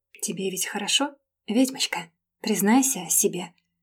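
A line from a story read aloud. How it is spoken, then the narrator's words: Insinuating, tempting whisper. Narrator (Russian): Шептал он вкрадчиво, словно дьявол-искуситель, пытающийся пробудить темную сторону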